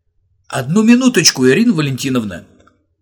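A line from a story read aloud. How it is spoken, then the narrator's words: Shout. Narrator (Russian): крикнул педагогу удивительный семиклассник Боря Курочкин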